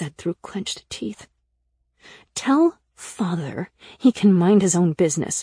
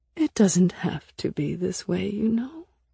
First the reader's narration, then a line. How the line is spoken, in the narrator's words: she said, her voice so sweet that I almost fell for it